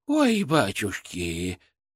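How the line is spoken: Breathless exclamation. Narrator (Russian): выдохнула

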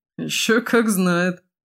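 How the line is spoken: Laughing. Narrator (Russian): засмеялся Димахер

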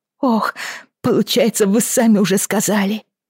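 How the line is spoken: Moaned. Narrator (Russian): простонала Бриана

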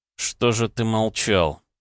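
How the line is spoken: Said through clenched teeth. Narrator (Russian): процедил

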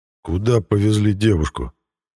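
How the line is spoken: Threatening question. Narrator (Russian): угрожающим тоном задал Мирон новый вопрос

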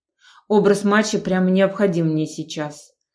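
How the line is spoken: Snorted. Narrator (Russian): фыркнул

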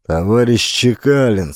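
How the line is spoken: Irritated. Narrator (Russian): сказал раздраженно

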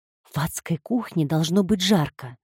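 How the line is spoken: Muttering. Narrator (Russian): пробормотала она

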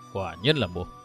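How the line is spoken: Low, stern voice. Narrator (Vietnamese): Đa Tí Thần Kiếm dựng ngược đôi mày rậm, hạ giọng nói

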